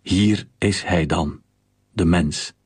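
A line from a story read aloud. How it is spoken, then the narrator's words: Plain. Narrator (Dutch): zei Pilatus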